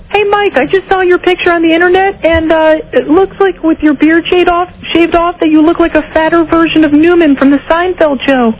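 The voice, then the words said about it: Disguised fake caller voice. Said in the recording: “is that a real voice that you're using right now? ... That's a fake voice.”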